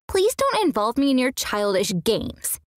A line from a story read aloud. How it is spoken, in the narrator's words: she snapped back